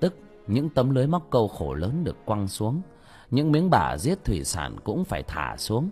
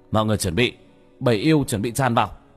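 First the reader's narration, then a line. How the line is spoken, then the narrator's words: Shout. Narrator (Vietnamese): Bác Cổ hét lên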